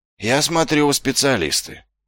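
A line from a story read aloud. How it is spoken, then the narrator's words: Sighing. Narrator (Russian): вздохнул Ваймс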